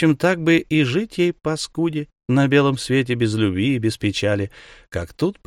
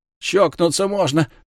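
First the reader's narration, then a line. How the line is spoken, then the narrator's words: Grumbling. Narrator (Russian): ворчала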